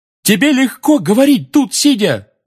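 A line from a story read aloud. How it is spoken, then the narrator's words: Roared. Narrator (Russian): взревел Фред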